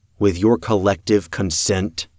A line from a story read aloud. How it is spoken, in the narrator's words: I asked